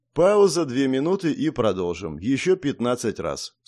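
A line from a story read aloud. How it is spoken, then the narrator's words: Calm. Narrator (Russian): спокойно произнес Ким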